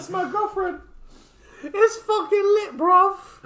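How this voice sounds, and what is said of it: Poor impression, sounds like Mickey Mouse. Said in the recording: “You sound like a terrible Mickey Mouse, bro.”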